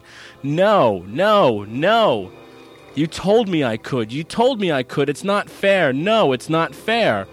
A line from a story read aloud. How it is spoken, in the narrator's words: Johnny went white with rage and began pounding his fists on his father's chest, all the while shouting